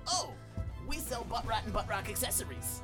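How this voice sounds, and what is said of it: Put-on character accent. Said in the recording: “I have an accent.”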